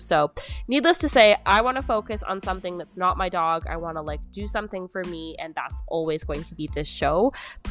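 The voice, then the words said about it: Canadian accent. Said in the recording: “that sounded so Canadian.”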